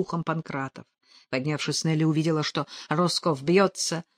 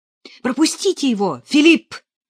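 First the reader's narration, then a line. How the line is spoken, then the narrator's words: Priest shouting. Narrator (Russian): крикнул священник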